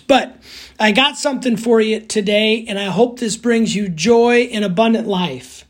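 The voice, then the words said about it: Hoarse, strained, cracking voice. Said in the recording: “I'm losing my voice because I've been yelling at kids at cross country meets ... if my voice cracks up here many times”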